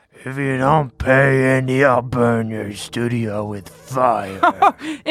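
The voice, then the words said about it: Creepy puppet character voice. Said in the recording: “you do that creepy voice”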